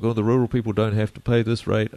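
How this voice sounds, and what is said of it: Silly mocking voice. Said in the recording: “do the silly voice.”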